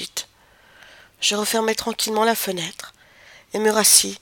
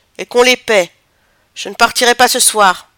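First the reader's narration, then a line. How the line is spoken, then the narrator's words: Shouting. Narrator (French): criai-je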